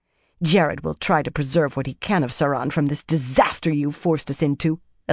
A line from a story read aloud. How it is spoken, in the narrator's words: Elania snarled